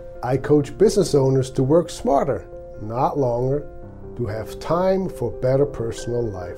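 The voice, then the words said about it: Swiss accent. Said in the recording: “my accent, I came from Switzerland more than 30 years ago”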